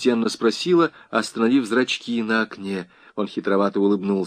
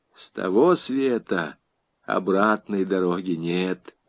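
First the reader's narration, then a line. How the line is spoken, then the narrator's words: Quiet. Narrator (Russian): тихо сказал Иван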